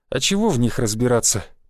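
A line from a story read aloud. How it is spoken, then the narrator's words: Sad smiling voice. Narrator (Russian): печально улыбнулся я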